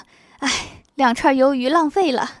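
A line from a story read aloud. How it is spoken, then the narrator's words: Pained, regretful woman. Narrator (Chinese): 郭大嫂心疼地说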